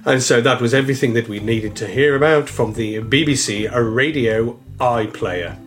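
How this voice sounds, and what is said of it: Radio continuity announcer voice. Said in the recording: “in my continuity voice”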